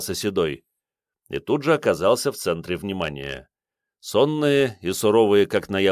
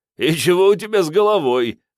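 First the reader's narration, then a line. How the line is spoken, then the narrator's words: Chuckling younger man. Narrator (Russian): хохотнул второй, помоложе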